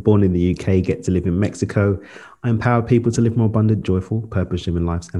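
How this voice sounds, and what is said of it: Natural British accent. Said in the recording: “This is not a fake accent.”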